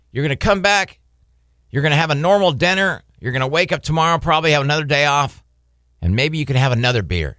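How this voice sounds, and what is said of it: Tempting evil inner voice. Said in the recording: “the evil voice”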